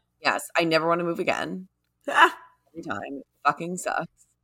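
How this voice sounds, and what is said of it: Slightly hoarse, tired voice. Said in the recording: “I'm like a little hoarse.”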